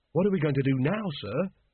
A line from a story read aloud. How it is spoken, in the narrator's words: said Carrot anxiously